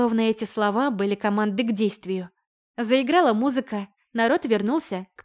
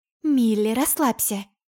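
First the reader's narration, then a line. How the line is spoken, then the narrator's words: Mother's whisper. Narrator (Russian): шепнула в ушко биологическая мать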